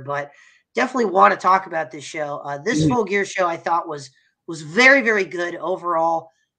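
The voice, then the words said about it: Hoarse, nearly lost voice. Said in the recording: “I got a little bit under the weather, maybe a little bit of a mild cold ... as you can tell, my voice is almost completely shot here”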